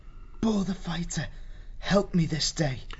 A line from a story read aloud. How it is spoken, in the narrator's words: he whispered